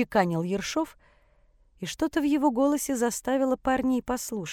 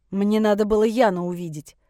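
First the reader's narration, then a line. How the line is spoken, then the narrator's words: Snapping irritably. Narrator (Russian): огрызнулся Дэн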